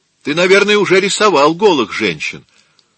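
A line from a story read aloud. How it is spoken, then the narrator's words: Impulsive shout. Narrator (Russian): острый на язык Чьеко не удержался и крикнул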